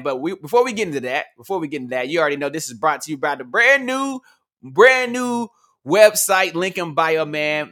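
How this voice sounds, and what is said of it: Hoarse, worn-out voice. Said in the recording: “My voice is gone, man.”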